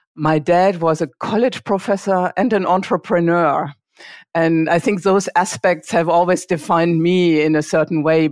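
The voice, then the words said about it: German accent. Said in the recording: “I grew up in a very small town in Germany. I guess you can tell from my accent. I can't really hide that.”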